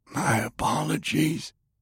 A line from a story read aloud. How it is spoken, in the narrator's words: the general whispered